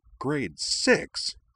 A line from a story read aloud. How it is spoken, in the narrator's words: Shepard exclaimed